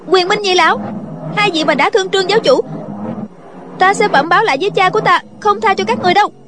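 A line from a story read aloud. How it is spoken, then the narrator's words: Worried cry. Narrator (Vietnamese): sợ chàng bị thương nên bèn kêu lên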